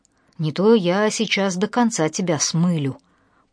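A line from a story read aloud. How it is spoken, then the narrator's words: Hoarse, threatening. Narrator (Russian): прохрипел Кирилл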